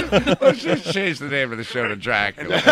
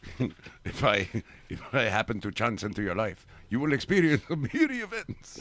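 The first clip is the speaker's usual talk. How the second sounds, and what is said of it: Poor Dracula voice. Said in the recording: “Poor Dracula impersonation.”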